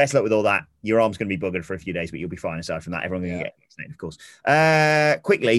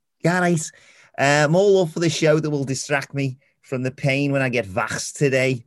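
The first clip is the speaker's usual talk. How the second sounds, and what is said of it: Put-on Scouse accent. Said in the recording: “that's good to say in a Scouse accent”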